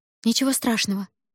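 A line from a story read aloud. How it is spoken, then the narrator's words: Hurried reply. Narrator (Russian): торопливо отозвалась Дудзилу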